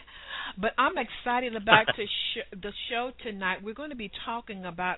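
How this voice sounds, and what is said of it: Clear, musical Southern US accent. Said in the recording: “your southern accent ... your accent is delightful ... you just sound so clear and you have such a nice sort of musical tone to your voice”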